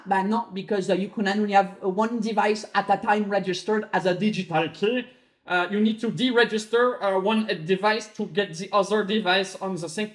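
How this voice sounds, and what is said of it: Put-on French accent. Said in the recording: “I don't know why the app is speaking in a French accent, but I imagine it speaking in a French accent.”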